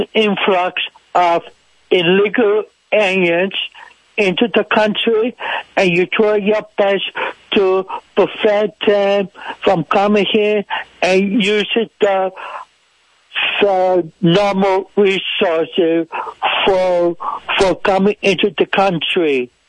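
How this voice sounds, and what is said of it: Foreign accent. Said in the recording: “Isn't he from a foreign country? What kind of accent is that?”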